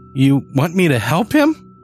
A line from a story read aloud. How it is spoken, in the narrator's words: I squeaked